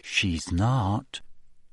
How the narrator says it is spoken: said Ginny quietly

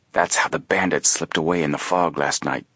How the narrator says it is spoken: Frank whispered to his brother

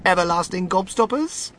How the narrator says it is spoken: cried Mr

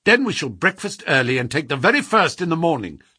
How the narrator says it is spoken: said Holmes

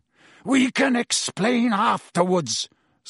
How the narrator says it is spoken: snarled Black

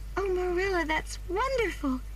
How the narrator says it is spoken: cried Anne

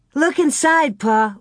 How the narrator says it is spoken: Laura cried

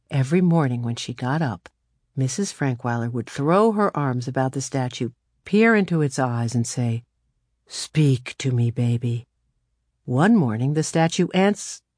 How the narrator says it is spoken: murmured

